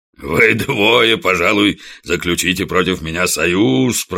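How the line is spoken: Deep booming chest voice. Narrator (Russian): прогудел он, выпятив свою могучую грудь

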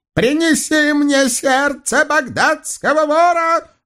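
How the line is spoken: Howling. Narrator (Russian): взвыл черный шейх

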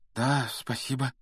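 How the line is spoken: Uncertain mumble. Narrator (Russian): неуверенно пробормотал Гарри

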